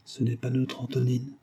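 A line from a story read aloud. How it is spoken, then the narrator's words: Murmured. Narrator (French): murmura la Niania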